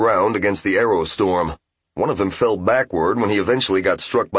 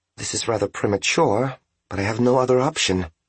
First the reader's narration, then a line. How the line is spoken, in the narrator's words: she said softly, more to herself than to them